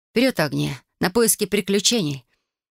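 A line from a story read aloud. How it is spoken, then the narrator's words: Cheerful speech. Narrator (Russian): бодро произнесла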